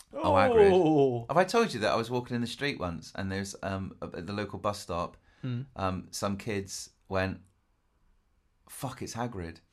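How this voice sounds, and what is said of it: Accent like Hagrid's. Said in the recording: “he's got my accent”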